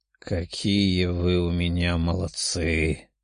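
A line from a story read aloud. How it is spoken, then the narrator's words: Hoarse young man. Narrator (Russian): прохрипел парень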